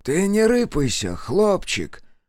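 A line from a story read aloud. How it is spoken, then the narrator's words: Gentle old man's whisper. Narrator (Russian): ласково прошептал с соседней кровати старик Тимоха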